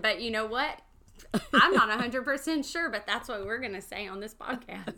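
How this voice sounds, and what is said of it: Southern US accent. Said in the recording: “your southern accent”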